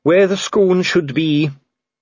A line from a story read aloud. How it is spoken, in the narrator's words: said Dee gloomily